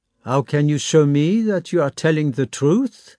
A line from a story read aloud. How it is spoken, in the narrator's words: said Davout coldly